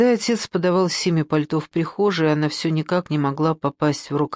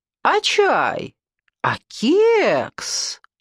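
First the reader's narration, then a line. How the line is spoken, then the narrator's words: Exaggeratedly loud exclamation. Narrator (Russian): Преувеличенно громко воскликнула Людмила Николаевна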